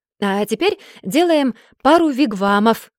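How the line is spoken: Exclamation. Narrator (Russian): воскликнула

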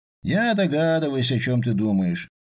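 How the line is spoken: Gloomy. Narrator (Russian): мрачно сказал Эдгар

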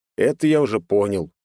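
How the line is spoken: Grumbling. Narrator (Russian): проворчал я

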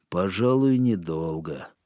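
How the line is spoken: Gloomy agreement. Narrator (Russian): мрачно согласился О'Нейли

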